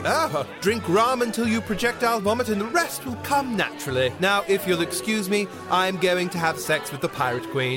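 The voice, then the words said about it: Posh English accent. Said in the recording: “judging by the accent ... I'm just irretrievably posh”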